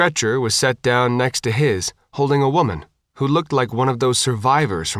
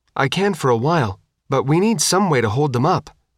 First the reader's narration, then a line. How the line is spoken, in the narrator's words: Tina said